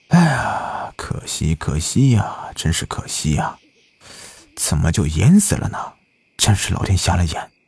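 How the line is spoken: Resentful sighing. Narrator (Chinese): 赖子愤恨的叹息道

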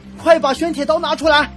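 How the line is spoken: Shouting. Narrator (Chinese): 对我大喊

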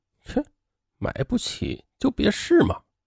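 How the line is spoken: Muttered. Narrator (Chinese): 导购小姐呢，嘴里是嘟囔了一句

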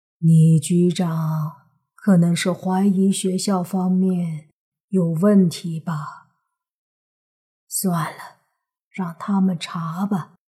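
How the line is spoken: Sighing old man. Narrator (Chinese): 老人叹了口气，说道

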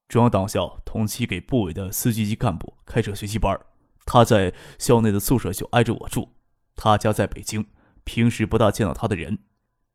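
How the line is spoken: Low voice. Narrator (Chinese): 唐学谦低声的介绍道

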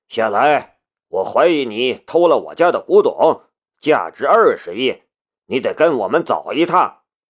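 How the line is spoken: Furious. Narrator (Chinese): 夏雷的讽刺已经激怒了安秀贤，怒道

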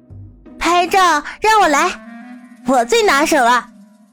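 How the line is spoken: Child calling out. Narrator (Chinese): 一个小孩子的声音喊道

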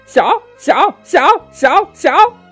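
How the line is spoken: Shouting. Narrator (Chinese): 叫道

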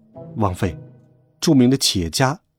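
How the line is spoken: Servant speaking quietly. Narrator (Chinese): 仆人 低声说

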